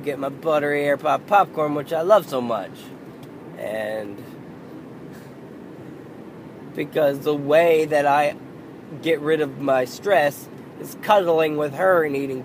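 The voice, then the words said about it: Worn-out, failing voice. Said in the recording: “My voice fucking went ... My voice is fucked. ... I hope to have my voice back on Monday.”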